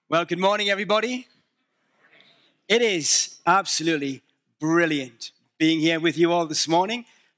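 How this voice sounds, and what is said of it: Northern English accent. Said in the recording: “Can you understand my accent? ... I'm from the north of England, and we are notoriously difficult to understand.”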